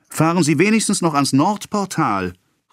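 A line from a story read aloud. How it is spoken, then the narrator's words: Calling after someone. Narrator (German): rief ihnen der Schweizer nach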